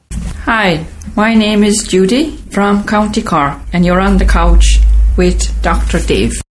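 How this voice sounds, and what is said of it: Irish accent from County Cork. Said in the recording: “I love her accent. At least to me, it's an accent.”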